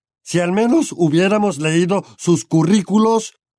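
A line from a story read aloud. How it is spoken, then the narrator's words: Grumbled. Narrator (Spanish): rezongó Vernon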